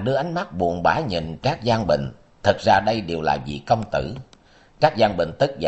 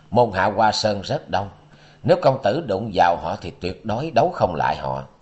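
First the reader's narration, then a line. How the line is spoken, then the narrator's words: Brief pause, continuing. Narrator (Vietnamese): khẽ ngưng rồi nói tiếp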